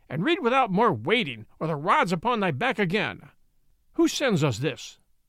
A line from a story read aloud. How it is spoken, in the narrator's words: roared the baron